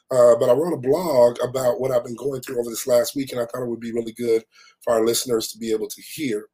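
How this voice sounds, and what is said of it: Slightly raspy voice. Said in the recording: “my voice is still a little raspy”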